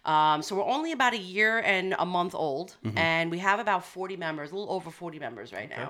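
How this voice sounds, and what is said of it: Long Island accent. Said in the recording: “And you can tell where we are. ... obviously by my accent.”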